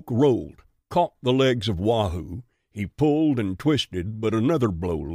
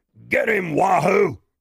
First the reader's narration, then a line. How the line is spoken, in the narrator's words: Bristol was yelling